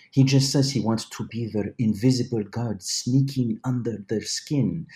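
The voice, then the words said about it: A good impression of a character. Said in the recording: “good impression, actually”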